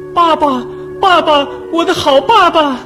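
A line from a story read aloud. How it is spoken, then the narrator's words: Startled cry. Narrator (Chinese): 哇的叫了起来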